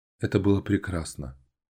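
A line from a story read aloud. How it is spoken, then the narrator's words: Whisper. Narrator (Russian): прошептала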